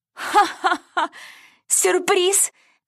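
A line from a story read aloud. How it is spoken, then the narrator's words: Laughing dolls. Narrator (Russian): засмеялись куклы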